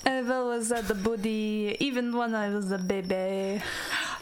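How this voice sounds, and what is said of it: Put-on French accent. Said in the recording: “Could you please repeat the statement in a French accent?”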